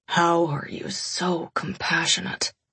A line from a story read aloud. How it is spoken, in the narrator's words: He mumbled into my mouth